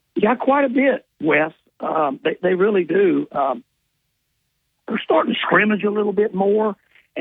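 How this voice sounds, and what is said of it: Raspy, hoarse voice. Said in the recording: “I got this old raspy gym voice.”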